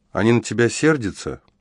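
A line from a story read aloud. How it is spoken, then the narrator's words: Quiet sighing question. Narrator (Russian): Вздохнула и Клотильда, тихо спросила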